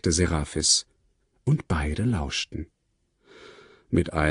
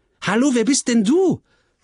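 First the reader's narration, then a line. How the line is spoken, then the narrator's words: Called out. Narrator (German): rief Tulipa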